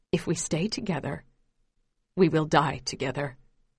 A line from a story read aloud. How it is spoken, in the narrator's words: says quietly